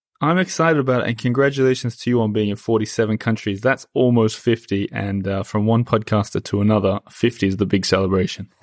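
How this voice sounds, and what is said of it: Australian accent. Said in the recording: “your accent is very clearly is Australian or Aussie”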